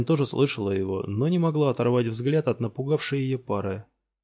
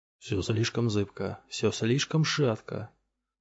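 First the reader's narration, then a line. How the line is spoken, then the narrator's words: Muttering, telepathic echoing voice. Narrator (Russian): бормотал Шакал, и голос его раздавался в головах у всех, кто был рядом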